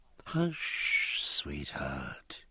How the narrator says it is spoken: murmured his captain, whose dreaming mind

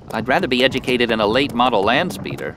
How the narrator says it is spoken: Anakin grumbled

